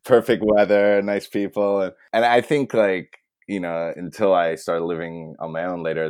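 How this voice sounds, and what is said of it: American accent. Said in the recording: “your accent certainly doesn't tell us that ... I sound American completely”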